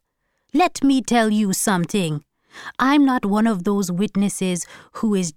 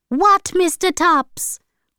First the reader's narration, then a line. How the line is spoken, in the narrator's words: cried Hortense